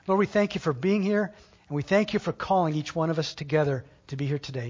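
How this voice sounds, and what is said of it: Strained, fading voice. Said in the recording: “I think I'm losing my voice.”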